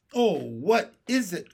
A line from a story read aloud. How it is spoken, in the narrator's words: cried Violet